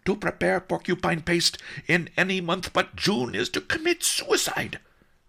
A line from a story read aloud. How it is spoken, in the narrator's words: Master Lee yelled